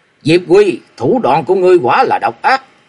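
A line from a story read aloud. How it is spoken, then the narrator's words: Cold snort, murderous roar. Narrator (Vietnamese): Long Môn cư sĩ hừ lạnh một tiếng, hai mắt nổi sát cơ, gầm lớn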